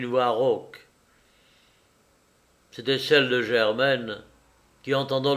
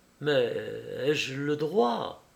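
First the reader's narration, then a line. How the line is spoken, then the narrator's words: Timid question. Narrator (French): demanda timidement madame de Morlaine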